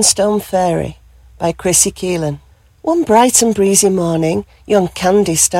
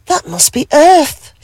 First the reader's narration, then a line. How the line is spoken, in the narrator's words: she gasped with joy